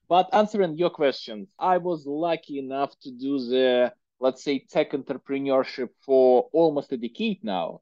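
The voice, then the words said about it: Strong Russian accent. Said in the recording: “my horrible Russian accent”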